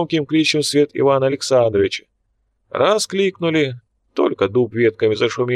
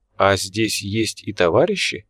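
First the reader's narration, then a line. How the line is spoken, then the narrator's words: Soft inquiry. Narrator (Russian): мягко поинтересовался Тургол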